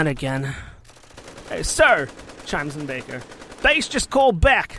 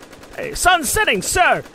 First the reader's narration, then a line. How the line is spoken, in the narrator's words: Baker shouts